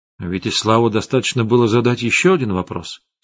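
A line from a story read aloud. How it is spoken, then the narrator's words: Plain. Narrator (Russian): сказал я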